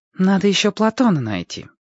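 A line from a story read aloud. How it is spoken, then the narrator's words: Sighing. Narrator (Russian): вздохнула Женька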